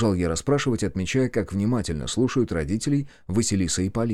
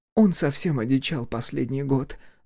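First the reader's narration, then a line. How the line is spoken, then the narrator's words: Mother sighing. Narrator (Russian): вздохнула мать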